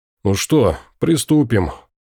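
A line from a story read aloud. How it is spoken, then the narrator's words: Sighing. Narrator (Russian): Рим, вздохнув, сказал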